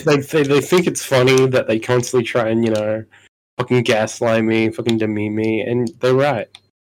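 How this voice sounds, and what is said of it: New Zealand accent. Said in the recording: “I'm the Kiwi of the group, as you can tell by my accent, which is very Kiwi.”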